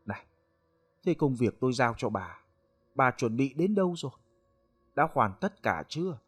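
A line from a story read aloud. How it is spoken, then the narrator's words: Gentle old man. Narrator (Vietnamese): Lão nhỏ nhẹ rồi hỏi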